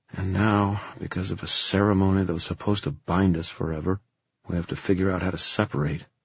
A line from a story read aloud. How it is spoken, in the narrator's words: Julian said bitterly